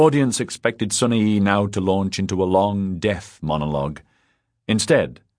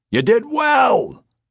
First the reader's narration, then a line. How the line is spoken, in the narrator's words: shouted a religious high school student from the back of the hall